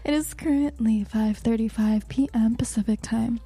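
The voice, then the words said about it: Smooth radio announcer voice. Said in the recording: “I said that in my radio voice. ... It's a beautiful voice.”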